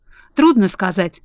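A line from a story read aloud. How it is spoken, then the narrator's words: Thoughtful reply. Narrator (Russian): задумчиво ответил хозяин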